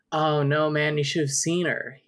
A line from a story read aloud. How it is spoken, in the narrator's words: he exclaimed